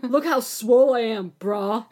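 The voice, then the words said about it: Exaggerated macho man voice. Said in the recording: “I do a good man impression”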